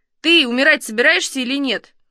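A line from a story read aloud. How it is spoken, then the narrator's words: Loud question. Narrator (Russian): громко спросил дядя Вася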